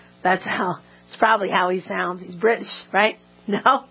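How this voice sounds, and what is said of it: Usual voice. Nothing is said of it.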